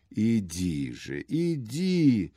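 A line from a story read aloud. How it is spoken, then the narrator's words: Strained babbling. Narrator (Russian): залепетал с усилием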